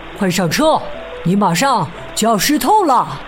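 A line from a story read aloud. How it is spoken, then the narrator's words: Loud shout. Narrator (Chinese): 他高声喊道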